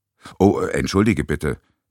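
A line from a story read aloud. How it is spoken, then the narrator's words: Plain. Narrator (German): sagte Flora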